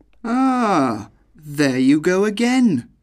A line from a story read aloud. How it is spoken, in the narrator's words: cried the German